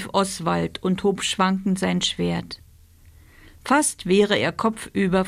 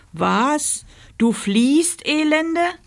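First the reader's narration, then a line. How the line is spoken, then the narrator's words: Knight bellowing. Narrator (German): brüllte der Ritter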